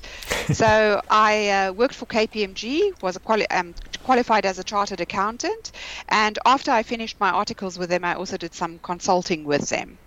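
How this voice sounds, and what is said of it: South African accent. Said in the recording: “started in South Africa, which you might have already spotted from the accent.”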